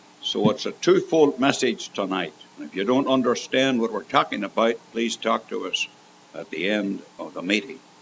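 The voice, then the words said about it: Canadian accent. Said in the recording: “he's an American, and I'm a Canadian. You know by my accent.”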